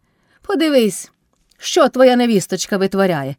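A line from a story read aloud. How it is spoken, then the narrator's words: Shouting. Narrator (Ukrainian): крикнула Кайдашиха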